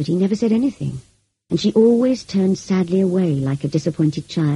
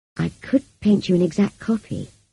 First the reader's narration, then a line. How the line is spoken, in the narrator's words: I said gently